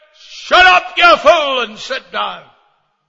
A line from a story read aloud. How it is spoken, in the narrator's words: he shouted